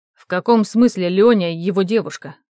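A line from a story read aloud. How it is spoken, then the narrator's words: Booming question. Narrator (Russian): прогремел новый вопрос от Вадима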